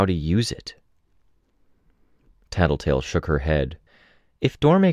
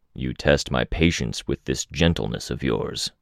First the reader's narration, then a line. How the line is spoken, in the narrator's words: Lung growled